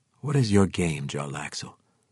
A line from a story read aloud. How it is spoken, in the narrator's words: Drizzt asked